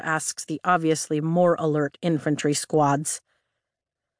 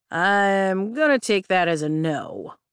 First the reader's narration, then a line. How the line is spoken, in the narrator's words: Riddick drawls